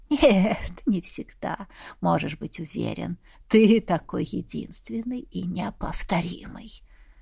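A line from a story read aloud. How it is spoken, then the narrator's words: Laughing. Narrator (Russian): рассмеялся собеседник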